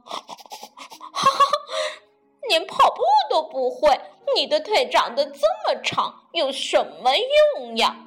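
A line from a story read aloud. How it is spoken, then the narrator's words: Laughing loudly. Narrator (Chinese): 闹闹就大笑起来，就说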